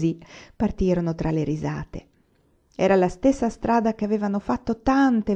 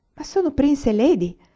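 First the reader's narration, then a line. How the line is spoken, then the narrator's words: Astonished exclamation. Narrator (Italian): esclamò stupita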